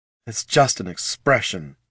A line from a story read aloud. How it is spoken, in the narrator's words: Deathbloom snarled over the other assassin's laughter